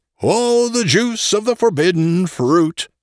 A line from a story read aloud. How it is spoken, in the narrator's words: roared out the bacchanalian chorus